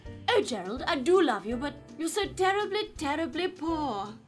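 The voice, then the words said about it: Put-on heightened posh British RP accent. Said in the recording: “Heightened RP is generally only spoken on film and television now. So you're going to think of Noel Coward or the Dowager Countess in Downton Abbey.”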